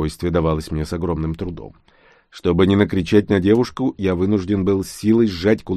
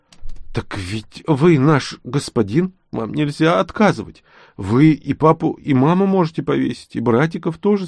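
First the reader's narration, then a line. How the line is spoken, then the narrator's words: Frightened girl babbling. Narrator (Russian): залепетала девушка, почувствовав мое состояние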